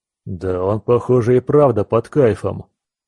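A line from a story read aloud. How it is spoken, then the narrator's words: Deep bass, burly man. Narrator (Russian): пробасил тот бугай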